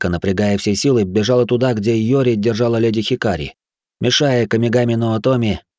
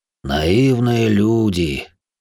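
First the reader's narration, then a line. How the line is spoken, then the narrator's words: Sighing. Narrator (Russian): вздохнул Йома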